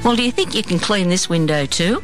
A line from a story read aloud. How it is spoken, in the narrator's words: I laughed out loud